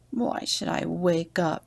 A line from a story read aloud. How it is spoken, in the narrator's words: He grumbled